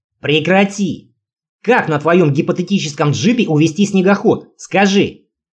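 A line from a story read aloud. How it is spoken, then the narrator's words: Roaring, metallic tone. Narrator (Russian): взревел я с молибденовыми нотками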